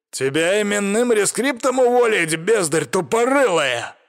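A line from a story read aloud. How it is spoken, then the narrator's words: Roar. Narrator (Russian): взревел Шуйский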